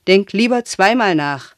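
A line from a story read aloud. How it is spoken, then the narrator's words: Calling out while leaving. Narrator (German): rief, schon im Weggehen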